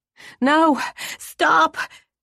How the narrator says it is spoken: she screamed

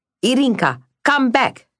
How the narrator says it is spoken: cried Anna

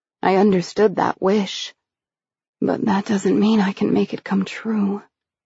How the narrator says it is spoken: I mumbled

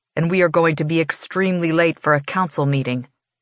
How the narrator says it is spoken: he says thickly

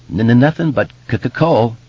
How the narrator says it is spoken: Bill said and giggled nervously

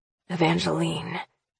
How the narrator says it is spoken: he murmurs

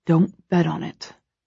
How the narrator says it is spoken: Christian mutters

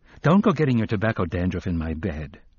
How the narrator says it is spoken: told him, more sharply than she had intended

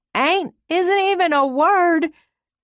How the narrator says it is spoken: shouted at the empty lagoon

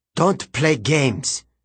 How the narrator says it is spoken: he snapped

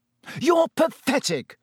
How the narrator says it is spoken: Harry yelled

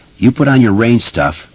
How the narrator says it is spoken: Bill said

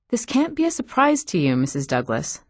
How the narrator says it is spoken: the counselor said

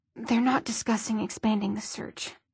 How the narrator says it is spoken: he said quietly

